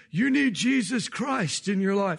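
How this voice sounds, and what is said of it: Older-voiced Billy Graham impression. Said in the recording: “It's Billy Graham... I can't do the accent, but he's got that older voice”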